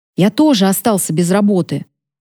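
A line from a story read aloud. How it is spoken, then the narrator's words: Plain. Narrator (Russian): сказал папа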